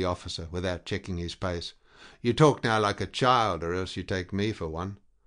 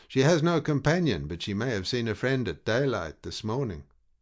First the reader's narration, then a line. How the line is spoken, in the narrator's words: arguing in a steady voice